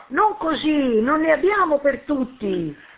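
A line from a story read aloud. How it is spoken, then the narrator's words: Shouting. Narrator (Italian): Nella baraonda Buzzetti gli gridava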